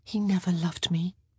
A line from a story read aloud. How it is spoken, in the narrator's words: she said quietly